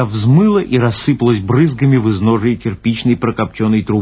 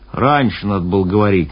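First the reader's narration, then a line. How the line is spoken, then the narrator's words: Displeased sailor grumbling. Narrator (Russian): недовольно проворчал моряк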